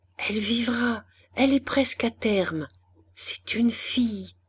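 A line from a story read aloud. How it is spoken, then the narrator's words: Murmuring. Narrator (French): Christiane ne put que murmurer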